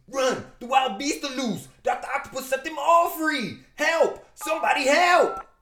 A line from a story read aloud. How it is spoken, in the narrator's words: The guy in the back screams